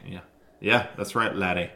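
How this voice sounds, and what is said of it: Bad put-on Irish accent. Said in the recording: “Get Irish today. ... It's the best accents I've ever heard in my life. ... Terrible, awful Irish accents. We all suck.”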